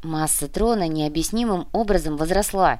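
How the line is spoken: Quiet explanation. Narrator (Russian): негромко объяснил профессор

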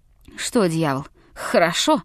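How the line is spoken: Mutter choking on blood. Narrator (Russian): пробормотал Леклер, выплевывая затопившую его горло и рот кровь

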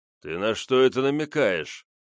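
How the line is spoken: Menacing deep bass. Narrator (Russian): грозно пробасил великан

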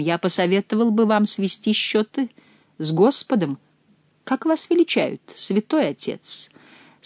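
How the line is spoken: Plain. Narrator (Russian): спросил Бюсси

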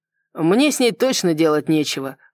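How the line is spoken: Scoffing snort. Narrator (Russian): хмыкнул Салливан

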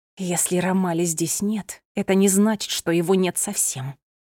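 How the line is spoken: Hissed. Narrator (Russian): прошипела

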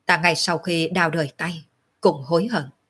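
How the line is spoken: Sighing. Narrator (Vietnamese): Úy công tử thở dài một tiếng nói

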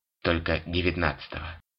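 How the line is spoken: Sad chuckle. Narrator (Russian): грустно усмехнулся толстяк

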